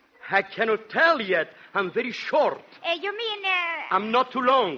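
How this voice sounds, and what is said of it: Strong foreign accent. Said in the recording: “What a accent you got. ... So you must have a accent.”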